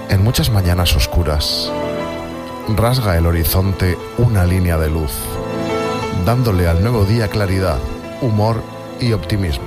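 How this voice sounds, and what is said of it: Sweet, indulgent put-on reciting voice. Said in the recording (Spanish): “Voy a intentar hacer una fernandiscada de recitar ... Y solo puedo poner voz golosona.”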